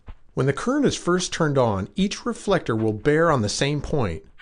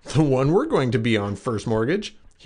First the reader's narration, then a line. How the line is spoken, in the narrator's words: he replied with a chuckle